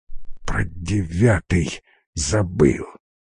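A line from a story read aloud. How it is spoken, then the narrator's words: Incoherent whisper. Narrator (Russian): несвязно прошептал он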